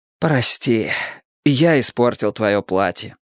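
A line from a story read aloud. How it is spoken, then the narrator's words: Strained, at a loss. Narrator (Russian): юноша растерял все слова, удалось выдавить из себя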